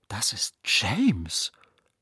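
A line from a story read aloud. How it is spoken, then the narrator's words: Whispered. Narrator (German): flüsterte Nadja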